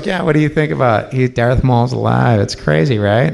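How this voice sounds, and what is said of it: Impression of Dave Filoni. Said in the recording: “doing an impression of him”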